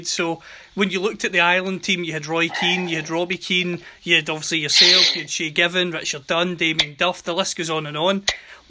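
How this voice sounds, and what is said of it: Scottish accent. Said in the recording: “You can hear from the accent, I'm based in Scotland”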